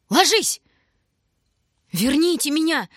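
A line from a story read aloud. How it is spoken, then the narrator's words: Shouting. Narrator (Russian): кричал Шурка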